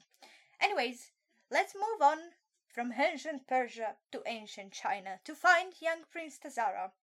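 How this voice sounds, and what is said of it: Theatrical vaudevillian actor voice. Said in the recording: “talking like a vaudevillian actor? That doesn't suit me at all.”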